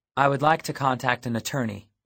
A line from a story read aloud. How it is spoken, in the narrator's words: I said